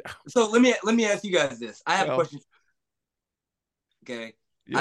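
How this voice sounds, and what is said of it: Usual voice. Nothing is said of it.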